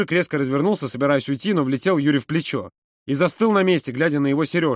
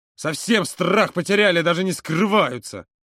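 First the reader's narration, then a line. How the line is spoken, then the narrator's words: Angry hiss. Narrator (Russian): зло прошипел он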